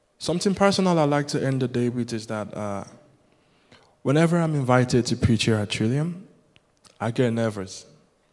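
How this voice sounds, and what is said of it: Yoruba-speaker's English accent. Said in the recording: “Will my accent bother people? ... Yoruba, my native language”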